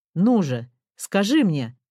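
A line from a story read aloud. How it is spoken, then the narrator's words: Shouted. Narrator (Russian): закричал он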